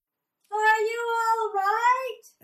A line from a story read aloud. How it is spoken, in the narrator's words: asked the pilot, yelling over the buzzing engines